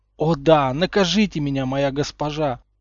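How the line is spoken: Howling. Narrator (Russian): взвыл Гарри

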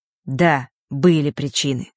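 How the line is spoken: Rather sharp. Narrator (Russian): довольно резко произнес он

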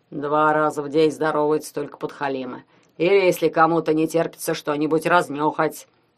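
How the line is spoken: Muttering grumble. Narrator (Russian): пробурчал пятикантроп

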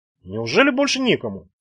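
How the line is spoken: Quiet perfunctory question. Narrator (Russian): тихо спросила она для параформы

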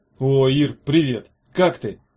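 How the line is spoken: Forced cheerful shout. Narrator (Russian): крикнул Меф тем бодрым голосом, которым говорят с людьми, на которых неловко смотреть

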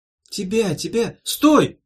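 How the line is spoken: Shouting. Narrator (Russian): закричала Ирка

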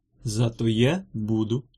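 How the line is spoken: Calm. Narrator (Russian): спокойно ответила Прасковья

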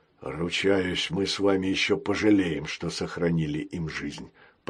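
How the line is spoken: Mutter. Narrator (Russian): пробормотал он

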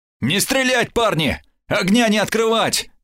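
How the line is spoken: Hurried shout. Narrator (Russian): крикнул я торопливо

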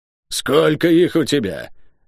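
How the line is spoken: Hoarse shout. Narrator (Russian): крикнула она мне осипшим голосом

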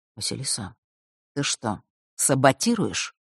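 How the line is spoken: Quiet question. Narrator (Russian): тихо спросил

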